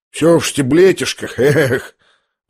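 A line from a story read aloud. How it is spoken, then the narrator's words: Sigh. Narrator (Russian): Вздохнул он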